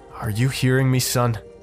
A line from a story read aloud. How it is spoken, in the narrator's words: asked sharply